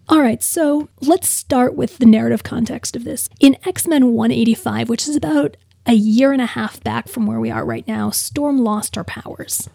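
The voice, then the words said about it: Weak, sick-sounding voice. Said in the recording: “as you can hear, my voice isn't all there this week. I'm also on a lot of narcotic cough suppressant.”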